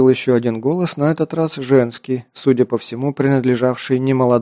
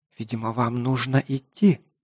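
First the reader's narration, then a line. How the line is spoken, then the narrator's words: Woman's whisper. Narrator (Russian): прошептала рыжеволосая красавица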